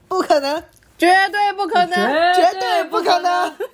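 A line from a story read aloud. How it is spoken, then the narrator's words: Laughing, firm. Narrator (Chinese): 李光头哈哈大笑，坚定的说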